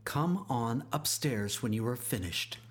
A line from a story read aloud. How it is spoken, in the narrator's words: she softly said